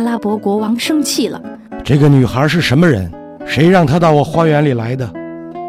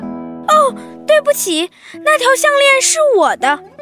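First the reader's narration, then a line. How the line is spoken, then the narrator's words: Shouting. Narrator (Chinese): 劳拉 喊着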